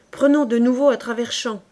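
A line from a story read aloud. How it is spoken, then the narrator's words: Exclaiming. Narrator (French): s'écria le caporal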